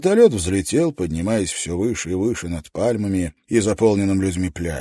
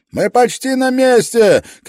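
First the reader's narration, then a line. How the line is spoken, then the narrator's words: Shouted back, not turning. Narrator (Russian): крикнул в ответ пилот, не поворачивая головы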